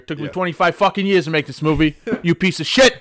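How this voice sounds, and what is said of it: Italian New York accent impression. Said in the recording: “What's his accent? He's what, Italian from New York.”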